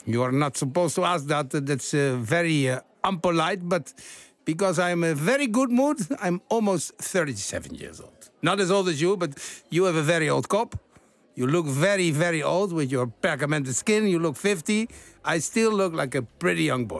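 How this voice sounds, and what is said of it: Odd put-on Portuguese accent. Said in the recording (Dutch): “Dat rare Portugese accent.”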